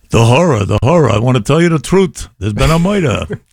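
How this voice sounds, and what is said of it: Put-on New York accent. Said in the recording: “they had the New York accent. And they all sounded like Jackie Mason.”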